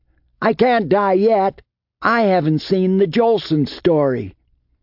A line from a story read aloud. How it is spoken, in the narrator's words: yelled